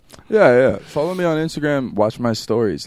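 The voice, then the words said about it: Changed, put-on accent. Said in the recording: “You changed your accent completely.”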